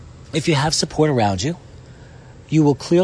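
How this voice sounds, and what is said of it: Usual voice. Nothing is said of it.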